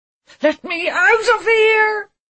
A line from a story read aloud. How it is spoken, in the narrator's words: he screamed at the walls